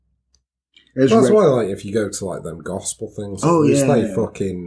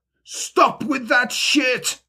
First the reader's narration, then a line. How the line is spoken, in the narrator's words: she cried